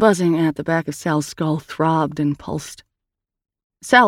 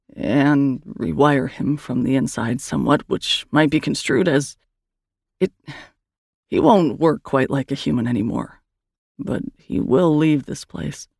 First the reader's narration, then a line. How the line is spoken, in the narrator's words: Erin faltered